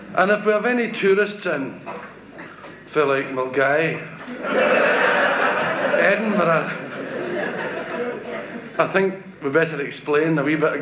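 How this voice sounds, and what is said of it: Glasgow accent. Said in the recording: “I do my act, or most of my act, in a Glasgow accent”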